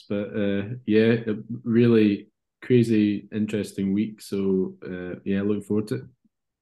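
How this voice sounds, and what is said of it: Congested voice from a cold. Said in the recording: “a bit of a dodgy cold, so you can probably hear in my voice”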